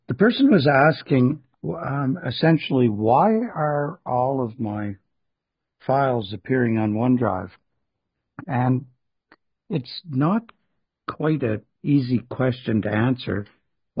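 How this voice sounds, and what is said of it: Hoarse voice. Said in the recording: “I'm still a little hoarse”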